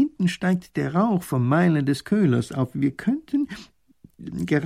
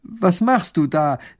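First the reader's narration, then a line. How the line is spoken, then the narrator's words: Call out. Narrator (German): ruft der erste Minister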